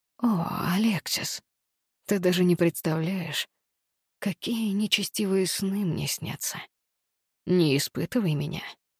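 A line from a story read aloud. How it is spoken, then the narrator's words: Sinister whisper. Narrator (Russian): зловеще прошептал Август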